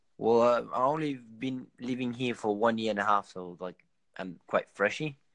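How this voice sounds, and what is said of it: French accent with slight Australian. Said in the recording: “my accent is a mix between a little bit Australian and maybe 70% French and 30% Australian”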